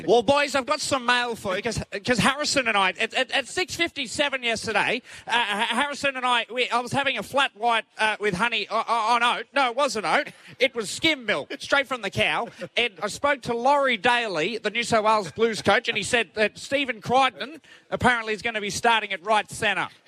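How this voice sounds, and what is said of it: Neil Breen impression. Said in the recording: “give us a little bit of your Neil Breen”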